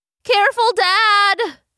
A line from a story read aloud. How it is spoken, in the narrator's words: yelled Benny from inside the basket